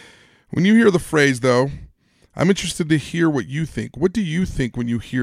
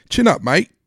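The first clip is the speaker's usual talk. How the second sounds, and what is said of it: Put-on English accent. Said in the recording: “I hear an English accent.”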